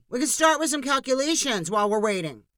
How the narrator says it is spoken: shouted another voice in the mob

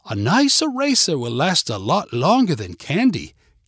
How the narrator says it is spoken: Katie explained sweetly

